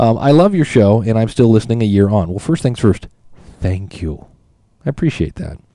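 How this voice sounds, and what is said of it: Usual voice. Nothing is said of it.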